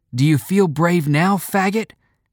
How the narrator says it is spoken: one yelled

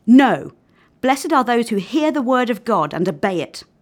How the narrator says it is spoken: Yahushua replied angrily

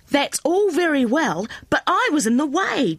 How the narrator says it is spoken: Jenny cried, sucking her sore finger

